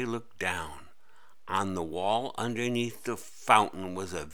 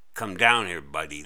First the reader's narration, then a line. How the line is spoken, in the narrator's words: the voice said